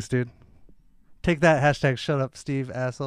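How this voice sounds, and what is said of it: Usual voice. Nothing is said of it.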